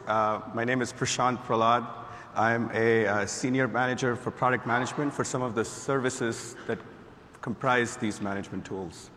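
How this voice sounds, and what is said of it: Raspy hoarse voice. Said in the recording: “I apologize for the raspy voice.”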